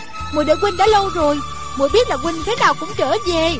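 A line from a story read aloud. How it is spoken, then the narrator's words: Joyful cry. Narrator (Vietnamese): rạng rỡ nét cười, reo lên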